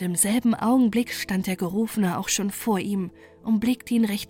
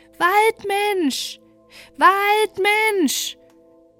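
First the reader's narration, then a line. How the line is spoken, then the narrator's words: Shouting at full voice. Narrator (German): rief aus vollem Halse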